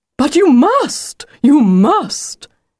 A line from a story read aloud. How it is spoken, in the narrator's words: exclaimed the wolf